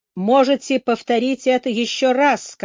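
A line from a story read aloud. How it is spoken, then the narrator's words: Plain. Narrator (Russian): сказал суперинтендант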